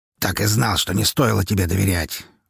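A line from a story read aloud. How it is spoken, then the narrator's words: Angry cursing, snorting. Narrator (Russian): выругался отец Марины, зло сопя носом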